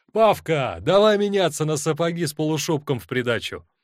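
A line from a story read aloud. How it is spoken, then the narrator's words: Shout. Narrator (Russian): Кто-то крикнул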